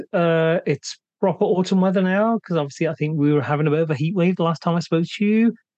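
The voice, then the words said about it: Voice starting to go, strained. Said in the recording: “My voice is starting to go”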